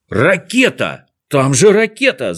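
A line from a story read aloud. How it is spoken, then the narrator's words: Shout. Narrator (Russian): закричал он профессору Звездочкину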